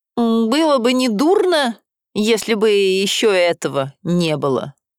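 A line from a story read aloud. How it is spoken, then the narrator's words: Muttered through clenched teeth. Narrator (Russian): говорит он сквозь зубы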